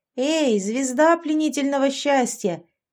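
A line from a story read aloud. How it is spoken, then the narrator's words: Shout. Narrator (Russian): крикнула я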